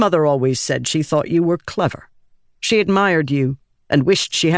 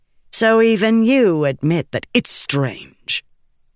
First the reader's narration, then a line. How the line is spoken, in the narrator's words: Adolin snapped